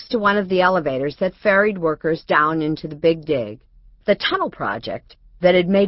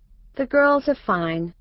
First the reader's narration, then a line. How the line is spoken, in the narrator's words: reported wistfully